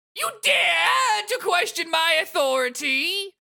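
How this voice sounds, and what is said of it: Imperious queen character voice. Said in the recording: “I have no idea if I'm doing the voice right ... Queen of Hearts says”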